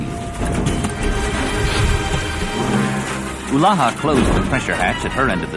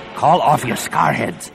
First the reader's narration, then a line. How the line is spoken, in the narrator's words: the Barabel rasped